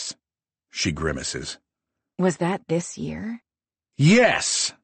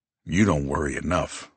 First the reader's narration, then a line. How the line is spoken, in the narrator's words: I grumble